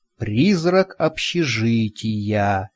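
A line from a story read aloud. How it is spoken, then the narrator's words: Thoughtful drawl. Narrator (Russian): задумчиво протянул я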